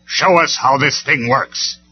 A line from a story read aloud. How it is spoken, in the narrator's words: Megatron snarled